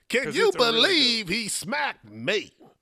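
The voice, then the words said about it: Imitates another person's voice. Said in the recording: “his Chris Rock impression”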